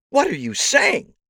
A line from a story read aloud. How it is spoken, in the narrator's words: Gloria screamed back